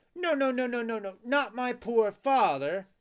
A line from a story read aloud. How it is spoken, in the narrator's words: cried Pinocchio in despair